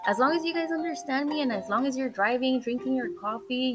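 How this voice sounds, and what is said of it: Accented English. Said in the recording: “I have an accent in Spanish and I have an accent in English”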